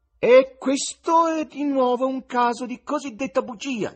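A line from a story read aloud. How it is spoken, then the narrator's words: High bleating tenor. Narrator (Italian): dichiarò con alta voce tenorile da caprone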